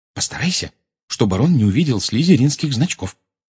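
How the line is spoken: Whisper. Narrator (Russian): шепнула она

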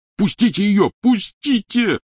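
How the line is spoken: Yelling. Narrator (Russian): орал Рон

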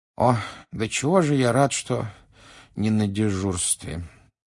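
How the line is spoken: Sleepy mumble. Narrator (Russian): сонно пробормотал мистер Уизли

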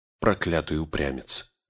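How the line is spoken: Rueful mutter. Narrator (Russian): сокрушенно пробормотал Леголас

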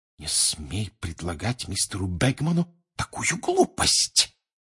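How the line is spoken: Furious hiss. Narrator (Russian): яростно прошипел Перси

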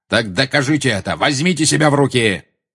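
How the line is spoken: Barking sharply. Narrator (Russian): рявкнул Снег

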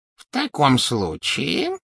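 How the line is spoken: Insinuating, goblin. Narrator (Russian): вкрадчиво произнес гоблин

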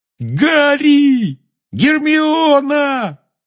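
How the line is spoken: Yelling. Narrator (Russian): завопил Рон

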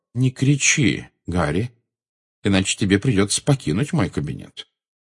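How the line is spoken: Calm. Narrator (Russian): спокойно произнес Дамблдор

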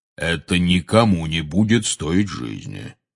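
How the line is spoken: Soothing deep bass. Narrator (Russian): успокаивающе пробасил Кингсли Бруствер

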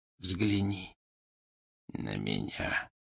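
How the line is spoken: Whisper. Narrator (Russian): прошептал он

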